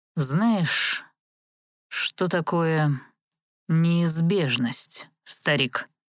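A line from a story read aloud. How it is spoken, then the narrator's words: Slow. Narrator (Russian): Медленно произнес он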